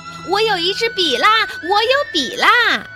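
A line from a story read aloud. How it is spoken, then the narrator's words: Joyful telling. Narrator (Chinese): 他十分高兴……告诉他们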